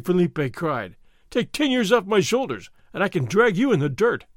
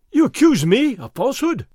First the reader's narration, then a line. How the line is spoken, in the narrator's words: Fray Felipe cried